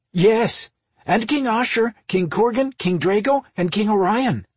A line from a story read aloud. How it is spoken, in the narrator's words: Jeff answered excitedly